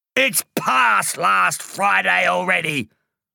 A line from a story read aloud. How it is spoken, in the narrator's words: shouted Mr